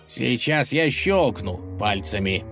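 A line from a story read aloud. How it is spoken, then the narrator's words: Menacing growl. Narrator (Russian): угрожающе прорычал поддельный правитель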